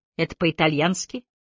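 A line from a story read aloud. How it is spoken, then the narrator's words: Gloomy question. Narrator (Russian): мрачно поинтересовалась Кэти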